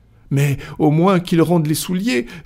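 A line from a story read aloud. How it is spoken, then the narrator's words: Enraged exclamation. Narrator (French): s'écria Passepartout avec un mouvement de rage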